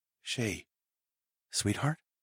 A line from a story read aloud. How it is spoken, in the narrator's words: I whispered